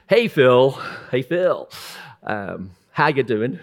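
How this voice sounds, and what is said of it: Put-on American accent. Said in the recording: “I imagine him with an American accent”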